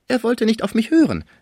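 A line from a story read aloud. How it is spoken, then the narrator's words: Call. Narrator (German): rief ein Nachbar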